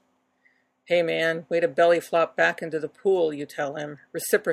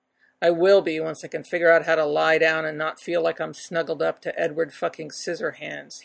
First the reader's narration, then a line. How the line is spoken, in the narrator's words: he grumbles